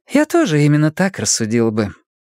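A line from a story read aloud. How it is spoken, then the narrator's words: Deceptively casual question. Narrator (Russian): спросила обманчиво небрежным тоном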